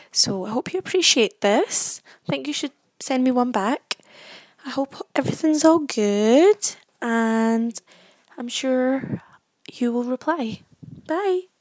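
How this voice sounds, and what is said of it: Scottish accent. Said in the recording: “this is how we actually sound ... this is what I suppose you could say a Scottish accent sounds like”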